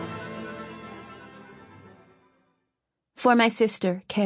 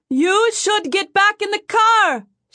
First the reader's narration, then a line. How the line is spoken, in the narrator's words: yells over the howling wind